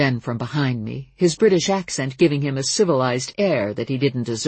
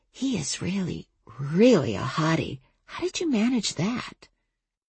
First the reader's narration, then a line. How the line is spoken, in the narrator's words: she whispered